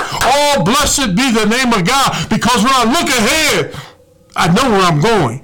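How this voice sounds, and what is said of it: Shouting. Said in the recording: “I'm shouting.”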